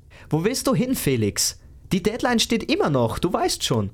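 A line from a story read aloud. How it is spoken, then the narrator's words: Calling after. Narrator (German): rief ihm einer seiner Kollegen nach, während er den Raum verließ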